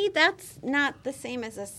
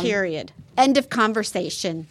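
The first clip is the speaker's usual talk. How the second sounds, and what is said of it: Stern mom voice. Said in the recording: “That's my mom voice.”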